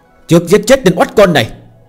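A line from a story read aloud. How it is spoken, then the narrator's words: Loud murderous shout. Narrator (Vietnamese): Phương Hành hét lớn, trong mắt bắn ra sát cơ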